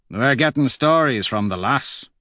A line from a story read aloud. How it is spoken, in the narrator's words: Nero says gruffly